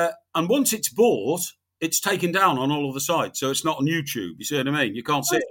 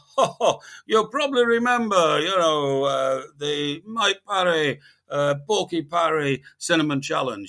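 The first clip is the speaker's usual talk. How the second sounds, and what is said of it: Put-on Iranian accent. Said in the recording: “That's your Iranian accent, is it? ... Yeah, that's my Iranian accent.”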